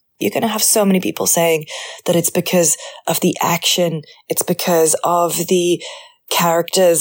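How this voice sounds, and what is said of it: Rough, strained voice. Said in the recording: “sorry about my voice. It's really rough right now because I have spent the whole weekend just hooting and hollering”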